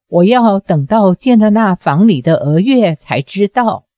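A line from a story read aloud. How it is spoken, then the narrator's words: Wry smile. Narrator (Chinese): 李莲花苦笑说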